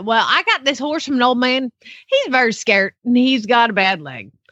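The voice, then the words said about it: Put-on Southern US accent. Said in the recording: “you didn't do it in a Southern accent. And it makes sense if you speak Southern.”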